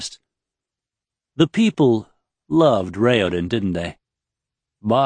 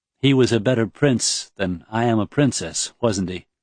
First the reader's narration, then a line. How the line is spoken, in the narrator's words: She asked, her voice falling